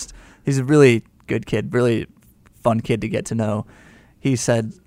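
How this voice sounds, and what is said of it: Usual voice. Nothing is said of it.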